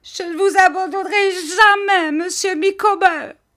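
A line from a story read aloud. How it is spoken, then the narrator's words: Shouting. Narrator (French): cria-t-elle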